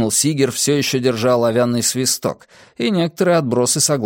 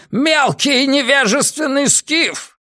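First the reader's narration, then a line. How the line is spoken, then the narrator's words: Roaring. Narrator (Russian): взревел он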